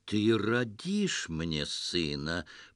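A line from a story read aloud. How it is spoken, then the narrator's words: Patronizing, smiling. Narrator (Russian): покровительственно улыбнулся повелитель Багдада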